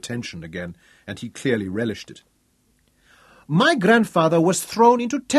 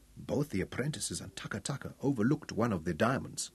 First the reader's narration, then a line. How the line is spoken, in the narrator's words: Tungata said softly